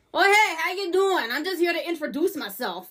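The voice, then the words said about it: Strong New Jersey or New York accent. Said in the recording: “the most New Jersey, maybe New York accent I've ever heard in my life”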